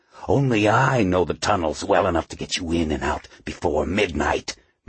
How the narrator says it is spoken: Mephisto hissed

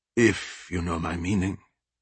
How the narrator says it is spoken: he mumbled

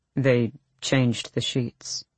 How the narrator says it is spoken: Kaol said softly

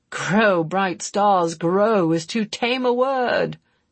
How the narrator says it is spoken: Dirk groaned

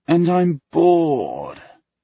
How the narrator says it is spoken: he whines

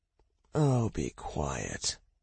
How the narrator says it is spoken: Minya muttered

